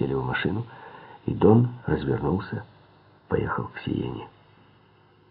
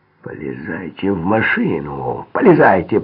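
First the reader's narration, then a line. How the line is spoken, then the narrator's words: Growling. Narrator (Russian): прорычал Айскони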